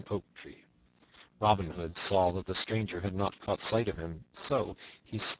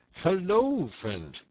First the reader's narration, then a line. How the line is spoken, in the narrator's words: cried Robin